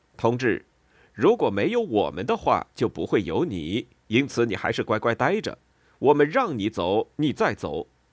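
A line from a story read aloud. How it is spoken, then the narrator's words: Shouting. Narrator (Chinese): 恩佐支持帕斯卡莱，他叫喊道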